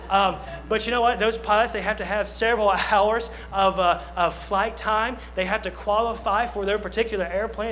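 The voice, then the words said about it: Southern American accent. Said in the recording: “I got a Southern accent.”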